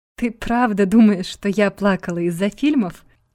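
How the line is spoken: Forced out through laughter. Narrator (Russian): выдавила сквозь смех

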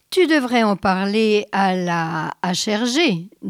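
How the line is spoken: Plain. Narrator (French): dit Cynthia

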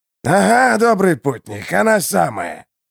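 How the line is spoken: Hoarse reply. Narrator (Russian): ответил некто хриплый

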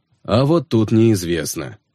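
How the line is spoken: Sighing. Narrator (Russian): вздохнул Михаил Львович

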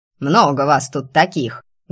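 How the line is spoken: Old woman's menacing bark. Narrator (Russian): грозно гавкнула бабка

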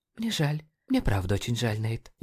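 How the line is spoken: Barely audible. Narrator (Russian): едва слышно произнесла она

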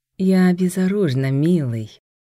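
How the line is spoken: Honeyed coo. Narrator (Russian): медовым тоном проворковала она

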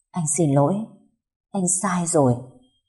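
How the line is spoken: Soft. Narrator (Vietnamese): Cậu khẽ nói

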